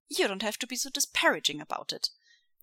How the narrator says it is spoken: Wei Ying says, sniffing haughtily

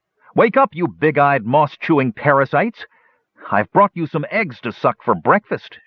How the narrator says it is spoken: shouted the nervous hill dwarf

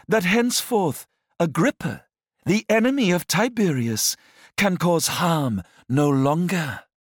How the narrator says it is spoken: exclaimed

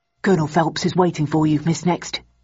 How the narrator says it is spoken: murmured the man in an affable tone

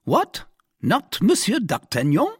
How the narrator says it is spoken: exclaimed the commissary

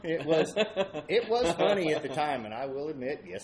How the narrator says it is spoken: I laughed

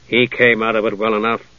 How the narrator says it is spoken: Caramon said dryly

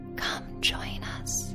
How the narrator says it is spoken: a whisper that says

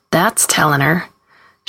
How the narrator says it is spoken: Carlene laughs and says

